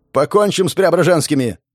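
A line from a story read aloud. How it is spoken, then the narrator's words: Shout. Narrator (Russian): закричал Ершов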